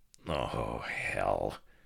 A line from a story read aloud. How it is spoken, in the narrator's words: Ohm muttered to me